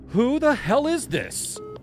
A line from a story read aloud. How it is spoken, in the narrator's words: I shouted into the receiver